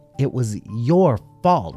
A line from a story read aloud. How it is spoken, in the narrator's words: snapped Bunny, uncharacteristically angry